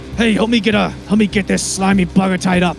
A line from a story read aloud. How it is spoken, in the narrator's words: he also yells over to Bart